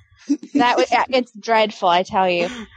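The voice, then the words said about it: Put-on British accent. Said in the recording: “That'd be great, that ... with a British accent.”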